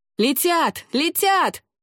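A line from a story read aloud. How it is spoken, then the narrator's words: Young man shouting. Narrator (Russian): закричал молодой тейнар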